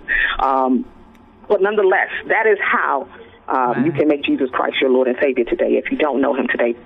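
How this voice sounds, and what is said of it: Preacher-like sermon delivery. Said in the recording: “you sounded like a preacher”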